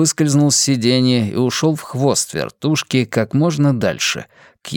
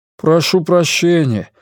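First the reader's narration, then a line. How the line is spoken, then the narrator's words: Forced out. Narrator (Russian): выдавил Ратти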